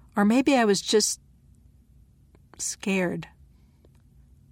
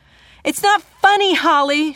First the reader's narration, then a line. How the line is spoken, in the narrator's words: she shouted